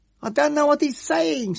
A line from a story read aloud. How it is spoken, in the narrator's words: shouted back down the passage